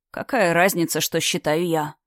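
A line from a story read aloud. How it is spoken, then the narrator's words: Sighed. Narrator (Russian): вздохнул Экхар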